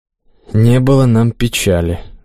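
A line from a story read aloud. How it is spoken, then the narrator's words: Sighing. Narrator (Russian): вздохнул священник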